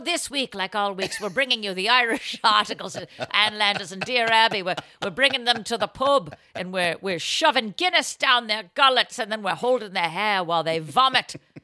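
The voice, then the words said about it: Bad put-on Irish accent. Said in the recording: “Even that is a bad accent. ... Irish, come on. Should be easy. ... It's Irish. ... It's pirate Irish.”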